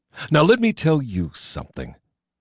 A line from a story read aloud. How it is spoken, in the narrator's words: I snapped into the mic